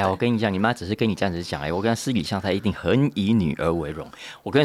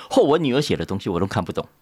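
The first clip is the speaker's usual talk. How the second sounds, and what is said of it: Imitating a proud mother chatting. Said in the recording (Chinese): “她跟她同学讲话，跟她朋友聊天的声音说”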